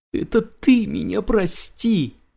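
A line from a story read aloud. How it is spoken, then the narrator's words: Sobbing sniffle. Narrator (Russian): всхлипнул Хмуркин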